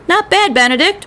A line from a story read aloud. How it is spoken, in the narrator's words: shouted Coach from the mound